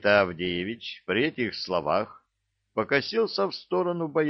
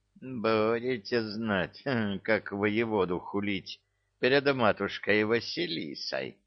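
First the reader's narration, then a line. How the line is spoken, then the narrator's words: Pleased mutter. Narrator (Russian): довольно пробормотал он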